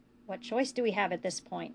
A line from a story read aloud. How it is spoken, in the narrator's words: asked quietly